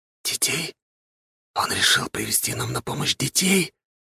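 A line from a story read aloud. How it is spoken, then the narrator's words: Incredulous whisper. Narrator (Russian): не веря своим глазам, прошептал Арсен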